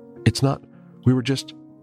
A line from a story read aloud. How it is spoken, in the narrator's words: Penny stammered